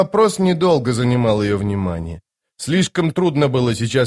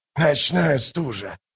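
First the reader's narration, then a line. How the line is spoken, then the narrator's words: Mutter. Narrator (Russian): пробормотал он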